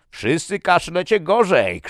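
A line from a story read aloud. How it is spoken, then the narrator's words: Shouted. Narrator (Polish): krzyknął Tomason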